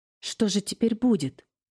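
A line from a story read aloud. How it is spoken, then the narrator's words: Frightened question. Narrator (Russian): испуганно спросила она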